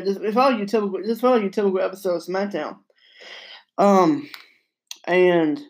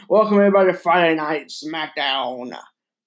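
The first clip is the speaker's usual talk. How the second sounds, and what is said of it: Vince McMahon impression. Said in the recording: “That's my Vince McMahon impression,”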